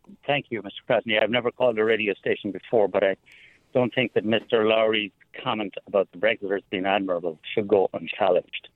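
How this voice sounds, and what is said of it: Irish accent. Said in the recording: “you may detect that my accent is Irish”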